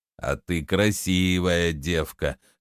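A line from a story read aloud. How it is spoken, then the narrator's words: Hoarse drawl. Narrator (Russian): хрипло протянул Шавур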